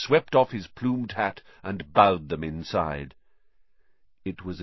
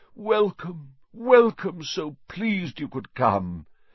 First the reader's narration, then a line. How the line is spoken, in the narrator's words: he said mournfully